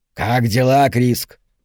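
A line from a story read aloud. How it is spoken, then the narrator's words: Croaking question. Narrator (Russian): спросил он каркающим голосом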